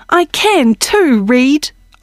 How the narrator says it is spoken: cried

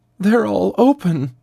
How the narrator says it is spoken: sobbed

